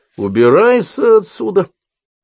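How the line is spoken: Menacing exclamation. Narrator (Russian): грозно воскликнул Хопкинс

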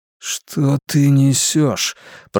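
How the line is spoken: Grumbled. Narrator (Russian): пробурчал Роланд

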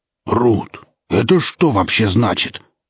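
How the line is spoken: Strained growl, dog. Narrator (Russian): Пес зарычал с надрывом

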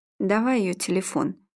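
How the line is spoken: Tired. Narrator (Russian): устало сказал Игорь

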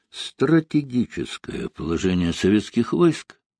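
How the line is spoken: Quiet. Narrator (Russian): сказал тихо Сталин

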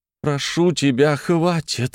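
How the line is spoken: Pleading. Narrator (Russian): взмолилась

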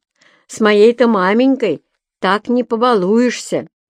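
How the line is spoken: Proud shout. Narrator (Russian): гордо крикнул

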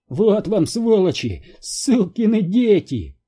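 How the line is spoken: Yelling. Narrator (Russian): орал он

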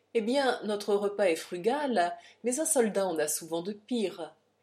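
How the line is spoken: Laughing captain. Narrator (French): Et le capitaine dit en riant

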